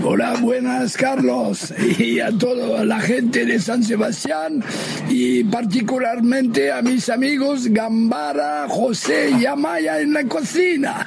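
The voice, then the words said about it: Spanish spoken with French accent. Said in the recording (Spanish): “habla castellano con ese acento francés”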